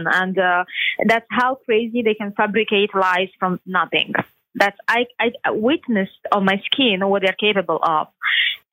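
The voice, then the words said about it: Italian accent. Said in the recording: “I'm Italian, born by Italian parents in Italy. But I have an accent”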